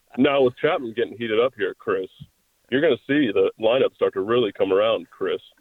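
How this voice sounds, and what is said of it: Imitates a radio broadcaster's voice. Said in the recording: “my Ken Korach impression ... every time he talks to you, Chris, he has to say your name, Chris, at the end of everything”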